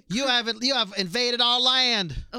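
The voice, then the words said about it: Imitating Alpha's accent. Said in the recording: “we're not making fun of her accent... just trying to replicate it... Your accent”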